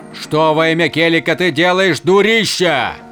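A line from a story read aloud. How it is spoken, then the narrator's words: Shriek. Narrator (Russian): завопил он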